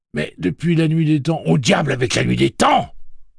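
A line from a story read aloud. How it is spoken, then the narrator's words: Shouting. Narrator (French): cria Tian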